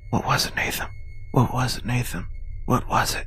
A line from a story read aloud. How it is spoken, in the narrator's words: whispered